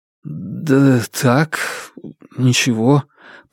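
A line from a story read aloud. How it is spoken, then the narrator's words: Muttered. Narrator (Russian): пробормотал Фанму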